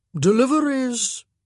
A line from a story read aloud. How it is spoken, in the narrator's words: intoned